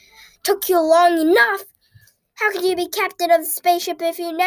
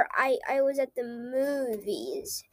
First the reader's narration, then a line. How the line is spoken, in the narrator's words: I stammered